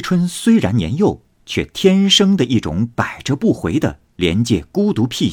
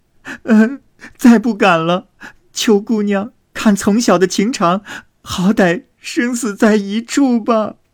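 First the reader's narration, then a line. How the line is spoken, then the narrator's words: Tearful pleading. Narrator (Chinese): 入画又跪下哭求，说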